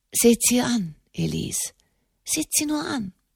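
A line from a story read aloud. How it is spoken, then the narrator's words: Murmur. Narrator (German): murmelte Enimont de Montalier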